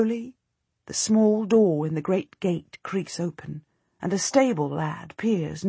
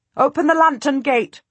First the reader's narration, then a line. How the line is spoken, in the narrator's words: I shout